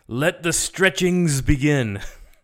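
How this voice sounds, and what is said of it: Impression of Raven's screaming voice. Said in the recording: “In that Raven voice.”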